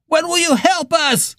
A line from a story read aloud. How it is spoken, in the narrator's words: someone in the crowd shouted